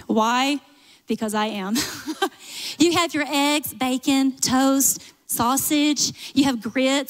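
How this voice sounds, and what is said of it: Southern US accent. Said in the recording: “I'm going to do this with a Southern accent.”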